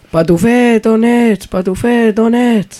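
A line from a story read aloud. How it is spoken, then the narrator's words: Parents calling out. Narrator (Catalan): els seus pares anaven cridant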